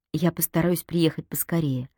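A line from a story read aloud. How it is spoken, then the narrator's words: Sighing. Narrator (Russian): вздохнула Вика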